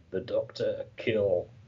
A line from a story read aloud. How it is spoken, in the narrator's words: deep in concentration, through gritted teeth, he manages to say